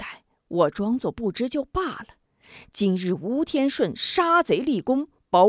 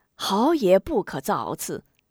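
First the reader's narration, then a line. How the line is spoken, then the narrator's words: Hurried placating. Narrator (Chinese): 许人急忙两边劝解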